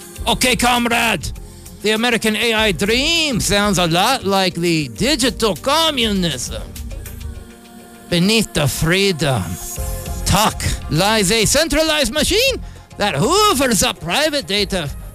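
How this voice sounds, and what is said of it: Put-on Russian accent. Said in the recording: “Why do I gotta use a Russian accent with that?”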